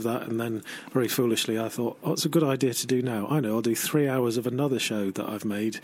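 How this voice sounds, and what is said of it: Tired, sleepy voice. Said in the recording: “I should be asleep now, as you can probably hear in my voice.”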